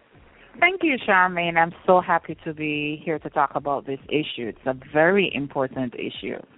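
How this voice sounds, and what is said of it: Jamaican accent. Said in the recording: “that beautiful Jamaican accent”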